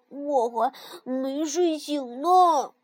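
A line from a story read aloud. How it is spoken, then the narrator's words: Sleepy mumble. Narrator (Chinese): 跳跳咕哝着说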